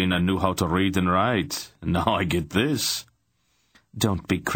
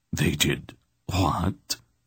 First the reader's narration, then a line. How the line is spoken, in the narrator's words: Rodar gasped